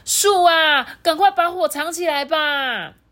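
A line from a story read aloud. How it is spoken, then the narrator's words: Loud shout. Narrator (Chinese): 鹿跟树大喊说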